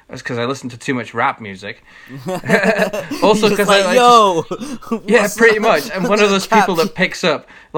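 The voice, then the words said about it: Mancunian-Glaswegian accent, American inflections. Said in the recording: “she made fun of my accent ... Why do you sound American? ... I absorb accents from around me. So I was like born in Manchester. I lived here in fucking Glasgow, so you can hear bits of both ... I inflect all my inflections and like slang comes from rap records ... you get the Mancunian”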